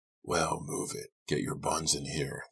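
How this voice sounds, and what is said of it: Booming, deep character voice. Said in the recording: “the man said in a booming, deep voice.”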